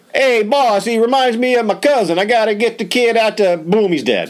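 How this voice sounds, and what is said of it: Put-on New Jersey accent. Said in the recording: “That was a great Jersey accent.”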